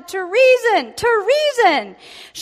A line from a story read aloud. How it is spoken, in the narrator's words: she tore her clothes and shouted